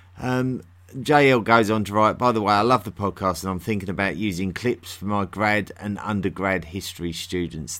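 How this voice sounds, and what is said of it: London accent. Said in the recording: “The natural accent of London is much more like mine”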